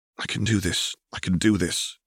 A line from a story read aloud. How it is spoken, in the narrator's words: whispers to himself